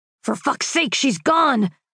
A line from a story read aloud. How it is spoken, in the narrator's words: Marcus roared, and the windows rattled